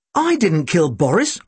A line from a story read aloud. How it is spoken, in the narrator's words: I exclaimed